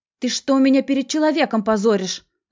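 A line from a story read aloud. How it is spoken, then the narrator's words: Yelling. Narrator (Russian): заорала она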